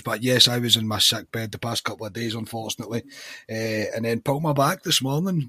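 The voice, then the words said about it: Weak, partly lost voice. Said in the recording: “as you can tell by my voice. I'm not fully there yet. I seem to have just lost my voice,”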